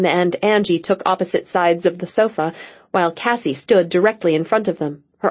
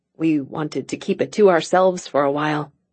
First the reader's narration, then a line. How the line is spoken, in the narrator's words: Angie said in a small voice